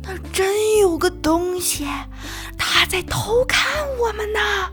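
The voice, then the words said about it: Quiet whispered voice. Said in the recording (Chinese): “跳跳小声说”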